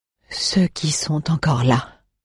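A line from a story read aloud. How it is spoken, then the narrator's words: Archivist murmuring. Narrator (French): murmura Shehan, l'archiviste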